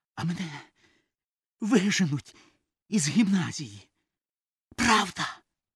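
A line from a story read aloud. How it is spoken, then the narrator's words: Hoarse whispered question. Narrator (Ukrainian): хрипким шепотом питає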